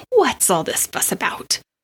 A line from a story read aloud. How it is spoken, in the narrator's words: Marianne sighed